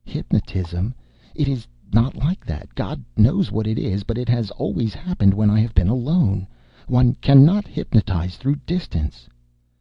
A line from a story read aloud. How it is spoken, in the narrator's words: I heard her murmur in a weary, troubled voice